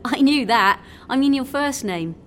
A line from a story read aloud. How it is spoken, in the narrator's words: she laughed